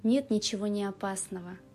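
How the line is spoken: Plain. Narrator (Russian): ответил Док

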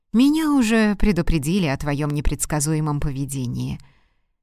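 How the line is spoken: Surprised. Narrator (Russian): сказал он, удивленный ее реакцией, добавил

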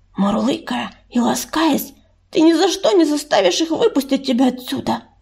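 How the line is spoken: Whispered. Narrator (Russian): прошептала Листочка Коди

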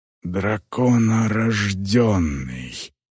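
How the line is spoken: Hoarse through clenched teeth. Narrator (Russian): прохрипел он сквозь стиснутые зубы

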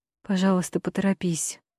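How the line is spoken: Sighed. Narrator (Russian): вздохнула Алисия

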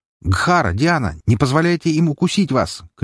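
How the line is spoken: Shout. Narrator (Russian): крикнул

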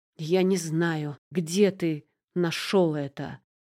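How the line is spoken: Hissing. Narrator (Russian): прошипел хозяин дома

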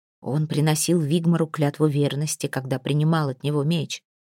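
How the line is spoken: Quiet answer. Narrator (Russian): тихо отвечал Асальф

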